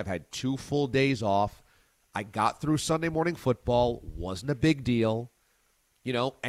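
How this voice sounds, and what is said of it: Strained, congested voice. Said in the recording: “my voice is going to be fine ... it just progressively got worse ... a little congested.”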